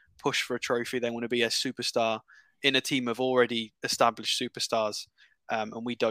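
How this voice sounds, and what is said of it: Usual voice. Nothing is said of it.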